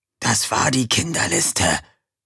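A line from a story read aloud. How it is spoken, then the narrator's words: Whispered. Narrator (German): flüsterte Erik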